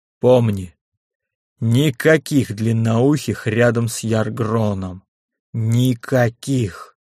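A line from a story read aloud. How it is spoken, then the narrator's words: Icy warning. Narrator (Russian): предупредил он уже совсем ледяным тоном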